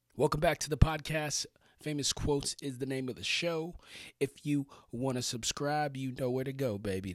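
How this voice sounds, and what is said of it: Strained, worn-out voice. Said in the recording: “Please excuse my voice. I've been doing a lot of yelling over the weekend”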